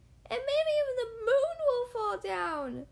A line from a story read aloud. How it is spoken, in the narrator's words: she shrieked